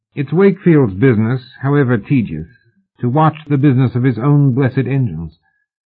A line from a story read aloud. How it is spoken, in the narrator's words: Oliphant said calmly